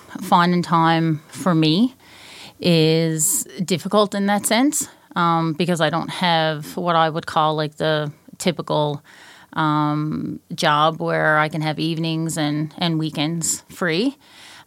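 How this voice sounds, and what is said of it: Newfoundland accent. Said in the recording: “how cute your accent is ... I'm from Newfoundland ... My Newfie is going to come out”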